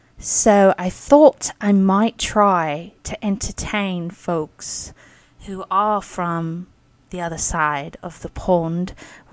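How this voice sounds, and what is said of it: Attempted British accent. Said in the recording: “try to pull off an English accent or British accent ... this particular accent”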